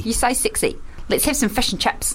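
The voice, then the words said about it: Put-on New Zealand accent. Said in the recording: “New Zealand is like Australia, but it's a bit more clipped in the vowel ... instead of say sexy, they say sixy ... I think we've exhausted our New Zealand accent.”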